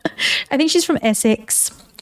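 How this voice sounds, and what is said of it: Poor imitation Essex accent. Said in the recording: “That was a horrible Essex accent.”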